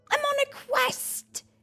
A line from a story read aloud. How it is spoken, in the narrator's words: he exclaimed gleefully